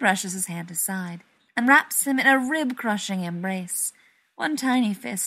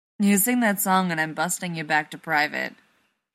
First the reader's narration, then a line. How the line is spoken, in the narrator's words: John laughs